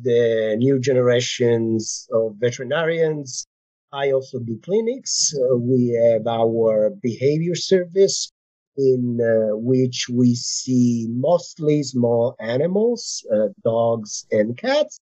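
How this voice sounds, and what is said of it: Italian accent. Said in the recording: “it sounds like you are not originally from the United States ... my accent, right? ... I am originally from Italy”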